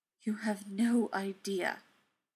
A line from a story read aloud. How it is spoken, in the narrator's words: breathed